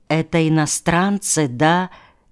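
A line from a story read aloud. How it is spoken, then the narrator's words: Quiet question. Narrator (Russian): тихо спросила Глафира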